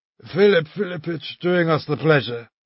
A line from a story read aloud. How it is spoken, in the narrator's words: muttered Szobryuhov, getting up to meet us with a blissful air